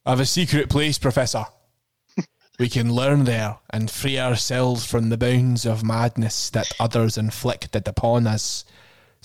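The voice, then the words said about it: Put-on Glaswegian Scottish accent. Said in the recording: “What accent do you want me to do? What voice? Should he be Glaswegian? ... He's definitely Scottish.”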